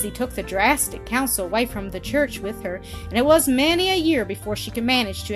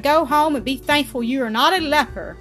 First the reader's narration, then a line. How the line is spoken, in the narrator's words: cried